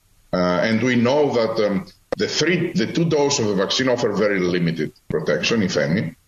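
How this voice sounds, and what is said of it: Foreign-accented English. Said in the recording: “I do like lies with an accent, though... I love a good lie with an accent.”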